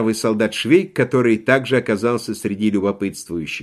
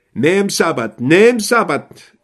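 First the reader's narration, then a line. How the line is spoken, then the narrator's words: Young soldier shouting. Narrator (Russian): кричал молоденький мадьярский солдат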